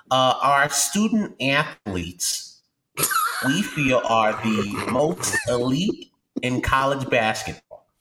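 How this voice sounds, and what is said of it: Imitates another person's voice. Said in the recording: “my Coach K impersonation ... It's pretty good.”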